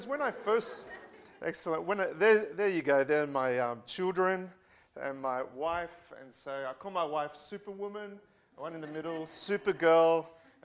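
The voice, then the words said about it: Australian accent. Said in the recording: “is everyone understanding my Australian accent?”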